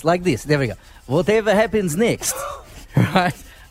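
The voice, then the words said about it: Put-on Russian accent. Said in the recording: “How does a Russian accent go?”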